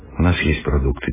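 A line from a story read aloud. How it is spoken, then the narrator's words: Quiet, younger speaker. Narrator (Russian): тихо сказал младший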